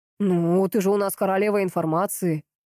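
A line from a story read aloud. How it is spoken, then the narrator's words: Snorting. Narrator (Russian): хмыкнул он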